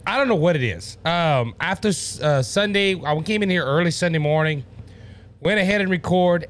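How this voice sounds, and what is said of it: Strained voice, nearly losing it. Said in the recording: “I do apologize for my voice. ... I started feeling a little soreness in my throat ... I was fighting losing my voice”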